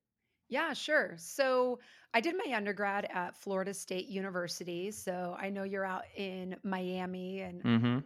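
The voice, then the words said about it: Slightly hoarse voice. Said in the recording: “my voice might be a little bit hoarse”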